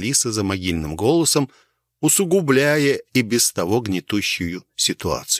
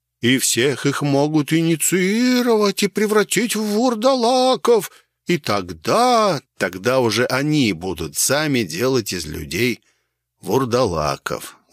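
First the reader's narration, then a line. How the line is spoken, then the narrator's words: Strange, altered voice. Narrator (Russian): закончил отец Евгений каким-то не своим голосом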